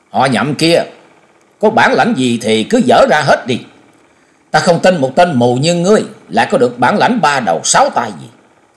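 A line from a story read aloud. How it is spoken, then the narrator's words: Loud shout. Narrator (Vietnamese): Âu Dương Trường Phong quát lớn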